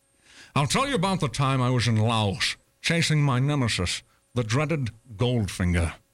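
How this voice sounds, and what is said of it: Old man with Scottish accent. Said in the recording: “I convinced everyone I was British, despite my clearly being Scottish ... I changed my accent for no man”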